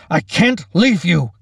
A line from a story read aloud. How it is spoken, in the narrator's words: Captain Monroe shouted